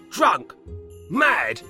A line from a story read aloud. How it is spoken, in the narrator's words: cried Alfred